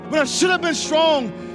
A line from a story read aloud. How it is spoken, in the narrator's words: I cried